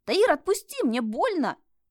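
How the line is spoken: Shout. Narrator (Russian): прокричала Света

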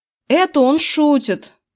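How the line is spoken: Shouted out. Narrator (Russian): выкрикнул я

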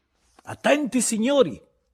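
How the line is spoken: Shout. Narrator (Italian): gridò Bebè Silva

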